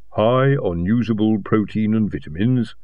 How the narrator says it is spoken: said

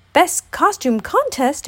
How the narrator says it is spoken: exclaimed Tigger

